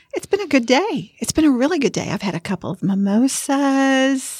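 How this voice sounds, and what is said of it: Southern American accent. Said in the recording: “This is just my Southern accent.”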